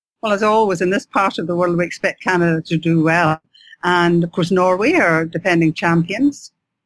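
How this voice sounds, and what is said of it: Scottish accent. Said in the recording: “I'm Scottish, as you'll know by my accent”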